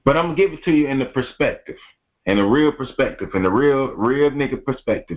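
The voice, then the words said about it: Speaks with a twang. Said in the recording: “you hear that twang in my voice ... you know when you hear that twang in that voice”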